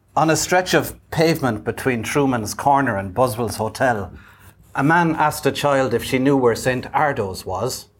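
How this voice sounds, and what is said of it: Attempted Irish accent. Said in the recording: “I'm going to have a go at an Irish accent.”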